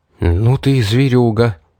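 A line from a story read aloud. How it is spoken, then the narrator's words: Astonished exhale. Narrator (Russian): выдохнул, пораженный наглой выходкой этой искусительницы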